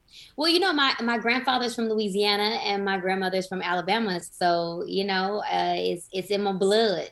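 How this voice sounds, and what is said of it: Light Southern American accent. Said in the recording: “you do sound like you've got the Southern thing going”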